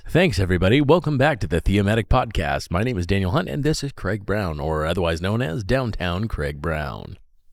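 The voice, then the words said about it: Radio announcer voice. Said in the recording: “You definitely have a cool radio voice”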